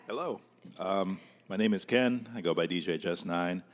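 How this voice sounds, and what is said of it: Announcer-style radio voice. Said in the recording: “turned on his radio voice.”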